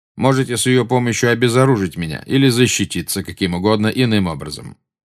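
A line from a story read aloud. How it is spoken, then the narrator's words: Plain. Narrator (Russian): сказал Снег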